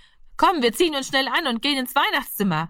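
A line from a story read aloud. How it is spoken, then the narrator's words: Called out. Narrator (German): rief er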